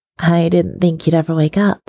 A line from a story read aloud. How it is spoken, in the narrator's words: Stiles tells him, his voice shaking as emotion builds and builds until his chest feels so full it could burst